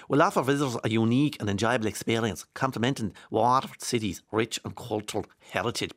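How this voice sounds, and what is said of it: Put-on Waterford Irish accent. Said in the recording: “I'll turn into Waterford accent here”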